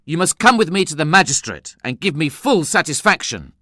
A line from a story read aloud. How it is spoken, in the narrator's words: I exclaimed angrily